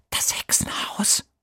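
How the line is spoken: Whisper. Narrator (German): flüstert Emil

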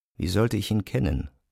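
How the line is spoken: Teacher speaking quietly. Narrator (German): sagte der Lehrer leise

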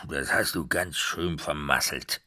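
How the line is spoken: Old devil growling through teeth. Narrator (German): knurrte der alte Teufel zwischen seinen verfaulten Zähnen hervor

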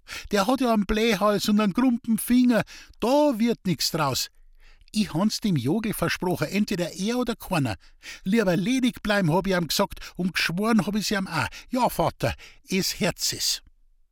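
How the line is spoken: Giggling. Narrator (German): kicherte Rosel

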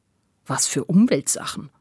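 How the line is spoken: Plain question. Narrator (German): fragte Jupp

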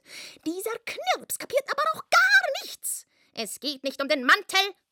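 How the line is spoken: Shouting. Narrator (German): schrie er

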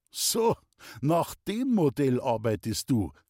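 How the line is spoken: Laughing. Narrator (German): lachte Baumiller

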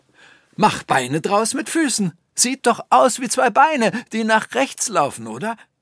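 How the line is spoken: Calling out. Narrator (German): rief

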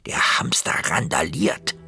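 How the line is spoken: Whispered. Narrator (German): flüsterte Tore

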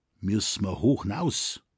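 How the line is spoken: Plain question. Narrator (German): fragte jetzt Schrenk

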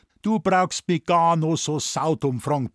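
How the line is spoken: Blustering. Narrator (German): polterte Dr

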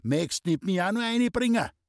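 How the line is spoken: Old man calling out. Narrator (German): rief der Alte

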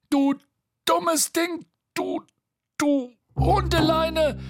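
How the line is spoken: Shouting. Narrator (German): schrie er

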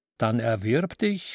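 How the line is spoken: Laughing. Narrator (German): lachte das Etwas

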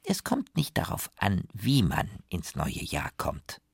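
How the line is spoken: Plain, grandmother. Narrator (German): sagt Oma

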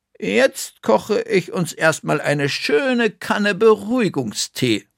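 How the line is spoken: Plain. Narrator (German): sagte Bertha

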